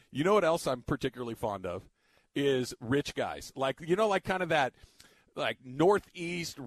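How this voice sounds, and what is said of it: Usual voice. Nothing is said of it.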